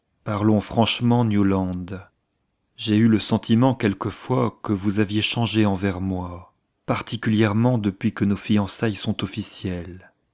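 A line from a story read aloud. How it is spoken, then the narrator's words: Graver, deeper voice. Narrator (French): elle ajouta d'une voix plus grave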